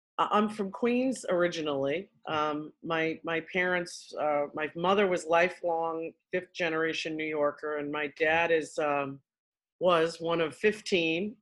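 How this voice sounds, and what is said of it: New York accent. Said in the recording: “can't you tell from my accent? ... the longer we talk, the worse it'll get.”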